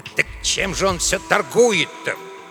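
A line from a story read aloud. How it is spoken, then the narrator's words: Grumbling. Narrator (Russian): ворчал Эдуарда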